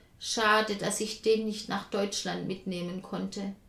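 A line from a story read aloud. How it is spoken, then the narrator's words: Sad thought. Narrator (German): denkt traurig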